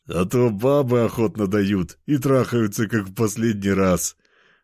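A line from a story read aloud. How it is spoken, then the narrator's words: Laughing. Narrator (Russian): рассмеялся третий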